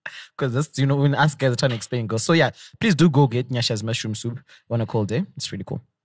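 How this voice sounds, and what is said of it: Usual voice. Nothing is said of it.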